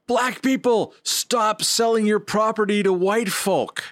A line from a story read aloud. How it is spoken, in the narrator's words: A guy once saw me on my stoop and shouted